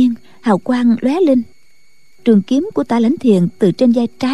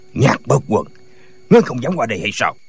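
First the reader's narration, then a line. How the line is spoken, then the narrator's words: Shouting. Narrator (Vietnamese): Tả Lãnh Thiền quát lên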